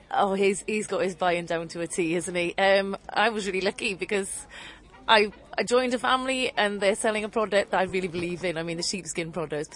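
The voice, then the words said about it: South Welsh accent. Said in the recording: “a Welsh accent ... From South Wales”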